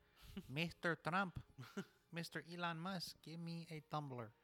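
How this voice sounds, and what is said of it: Put-on accent. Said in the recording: “I don't know why I did that accent.”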